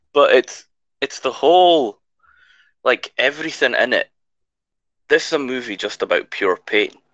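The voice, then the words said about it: Strained, fading voice. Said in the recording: “losing my voice.”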